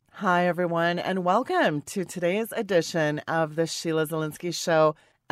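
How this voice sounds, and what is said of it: Hoarse, sick-sounding voice. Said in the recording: “my voice is not 100% ... scratchy throat ... do bear with this voice ... you sound like Tony Curtis on a ventilator”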